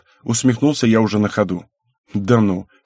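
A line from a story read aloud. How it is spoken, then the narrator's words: Snorting reply. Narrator (Russian): хмыкнул он в ответ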